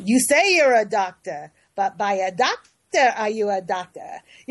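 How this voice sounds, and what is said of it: Imitated Yiddish accent. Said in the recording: “my dad used to say in his Yiddish accent”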